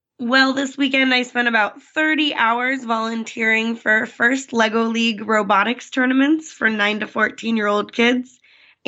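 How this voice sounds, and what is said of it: Raspy, strained voice. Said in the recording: “My voice is cutting in and out. Yeah, you're feeling sounding a little raspy ... So my voice is not quite there this tonight.”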